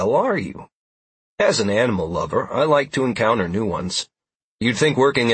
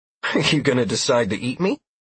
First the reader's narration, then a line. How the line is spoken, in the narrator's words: I chuckled at it